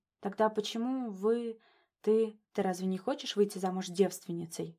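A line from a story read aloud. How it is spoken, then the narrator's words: Quiet question. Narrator (Russian): Спрашивает он тихо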